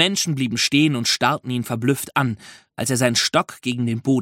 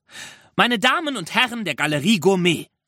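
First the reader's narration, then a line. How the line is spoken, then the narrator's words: Calling out. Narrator (German): rief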